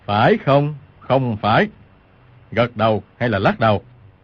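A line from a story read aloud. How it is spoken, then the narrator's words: Stern shout. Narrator (Vietnamese): Lương trưởng lão quát lên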